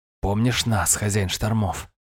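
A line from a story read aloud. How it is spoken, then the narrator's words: Whisper. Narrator (Russian): шепнул один из них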